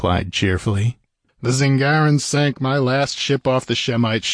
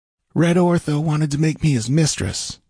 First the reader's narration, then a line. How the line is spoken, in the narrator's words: she answered sullenly